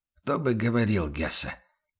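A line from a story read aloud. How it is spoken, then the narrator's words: Quiet. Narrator (Russian): тихо произнес инструктор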